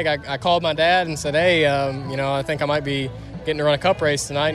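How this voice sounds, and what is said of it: Flat Michigan accent. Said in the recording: “You can tell he's from Michigan, can't you? ... That flat accent.”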